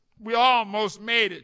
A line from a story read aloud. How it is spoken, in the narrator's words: she said